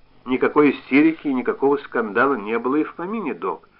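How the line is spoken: Dry male reply. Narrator (Russian): ответил он сухо

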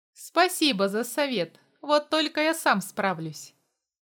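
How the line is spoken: Grumbling. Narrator (Russian): проворчал я

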